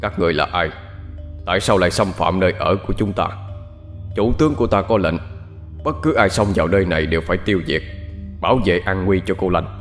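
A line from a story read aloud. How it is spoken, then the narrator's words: Deep hoarse voice. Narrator (Vietnamese): tên chỉ huy nói với cái giọng ồm ồm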